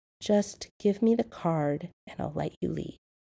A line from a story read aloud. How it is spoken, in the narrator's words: John said softly, purposely calming his voice and diffusing the tension